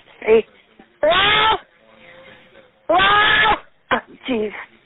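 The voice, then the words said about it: Yelling loudly. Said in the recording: “She's yelling.”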